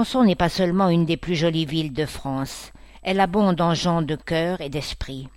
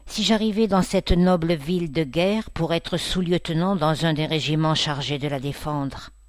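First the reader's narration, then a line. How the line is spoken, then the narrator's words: Sighing. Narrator (French): dit-il en soupirant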